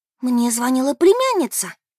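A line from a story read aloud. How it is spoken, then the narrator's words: Agitated, worried. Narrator (Russian): взволнованно сообщила Бет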